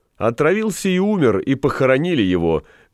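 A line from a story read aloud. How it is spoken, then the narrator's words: Loud, laughing. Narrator (Russian): громко подхватил засмеявшийся Галеран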